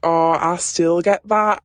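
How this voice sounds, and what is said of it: Poor put-on Scottish accent. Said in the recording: “she's actually Scottish... I'm awful at a Scottish accent.”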